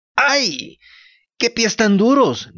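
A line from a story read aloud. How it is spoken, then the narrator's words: Child's pained shout. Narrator (Spanish): gritó el niño sobándose el morado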